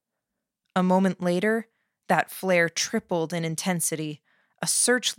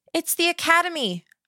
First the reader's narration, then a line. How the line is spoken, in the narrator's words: called out